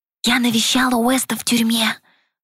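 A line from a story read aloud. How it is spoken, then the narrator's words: Loud whisper. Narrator (Russian): Громким шепотом объявила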